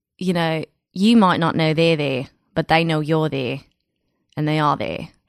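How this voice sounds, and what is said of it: Good put-on Australian accent. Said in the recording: “they're always Australian ... loving your accent. It's so good. ... yours is so good”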